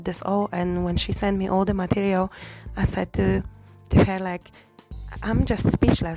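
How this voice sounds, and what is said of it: Strained, fading voice. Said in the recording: “I'm losing my voice”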